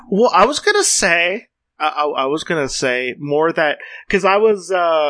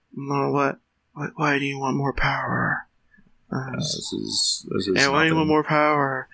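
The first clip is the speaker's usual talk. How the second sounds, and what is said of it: Imitates another person's voice. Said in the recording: “my Reddo impersonation”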